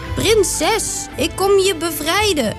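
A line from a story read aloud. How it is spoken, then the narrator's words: Calling out. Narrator (Dutch): riep Toren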